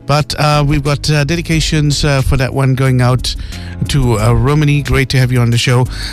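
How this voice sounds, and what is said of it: Sore-throated, rough voice. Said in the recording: “I've got a bit of a sore throat, so do excuse my voice.”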